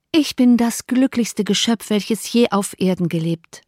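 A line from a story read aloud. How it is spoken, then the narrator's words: Plain. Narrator (German): sagte Jane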